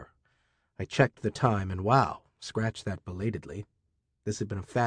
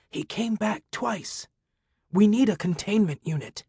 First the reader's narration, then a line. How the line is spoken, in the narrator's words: Tiffany, her voice a strained rasp, said